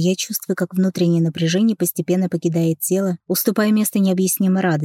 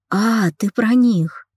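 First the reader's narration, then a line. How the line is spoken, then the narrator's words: Breathed out. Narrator (Russian): выдохнула она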